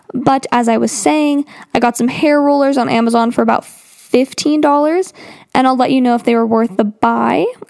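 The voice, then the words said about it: Slightly scratchy, dry voice. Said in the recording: “My throat's getting a little dry ... my voice is currently sounding a little scratchy”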